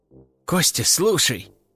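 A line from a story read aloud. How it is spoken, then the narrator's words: Thoughtful artist. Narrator (Russian): задумчиво проговорил художник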